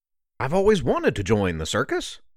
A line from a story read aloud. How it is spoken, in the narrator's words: Turk exclaimed